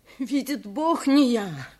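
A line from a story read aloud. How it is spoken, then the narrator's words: Poor man's sobbing. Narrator (Russian): повторял всхлипывая бедняк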